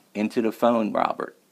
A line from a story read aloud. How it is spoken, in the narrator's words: she said